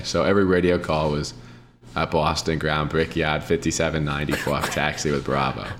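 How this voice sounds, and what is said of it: Put-on Boston accent. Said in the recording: “you have to talk in a Boston accent ... talking the Boston accent”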